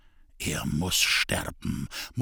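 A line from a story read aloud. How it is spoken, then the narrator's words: Quiet murmur. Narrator (German): murmelte er leise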